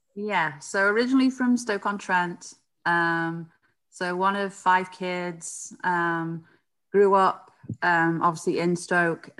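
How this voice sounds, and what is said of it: British accent. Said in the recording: “you don't sound like you're from across the pond ... You've got a very British accent there.”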